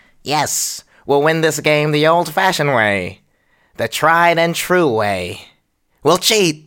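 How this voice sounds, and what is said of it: Cartoon villain voice impression. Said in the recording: “I will try my best to impersonate Skeletor's voice”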